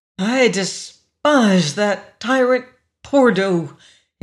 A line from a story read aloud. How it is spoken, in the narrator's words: he breathed soulfully